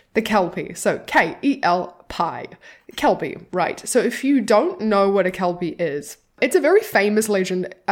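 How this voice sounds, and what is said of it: Own regional accent, likely Scottish. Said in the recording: “My accent just makes it sound like cowpee”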